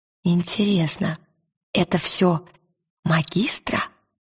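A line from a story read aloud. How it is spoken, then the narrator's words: Whispered. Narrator (Russian): прошептала она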